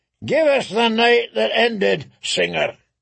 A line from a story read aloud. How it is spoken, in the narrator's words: he bellowed